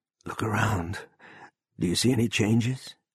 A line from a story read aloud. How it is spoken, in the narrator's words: Poole said hoarsely